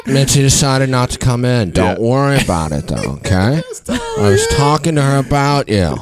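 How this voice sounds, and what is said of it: Impression of another person. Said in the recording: “does a great impression.”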